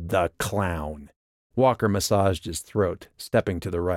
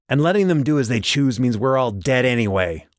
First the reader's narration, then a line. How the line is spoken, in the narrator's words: Walker barked